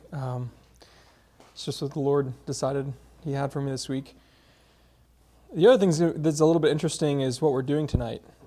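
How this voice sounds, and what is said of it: Hoarse, strained voice. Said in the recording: “I'm losing my voice. So if it starts to crack”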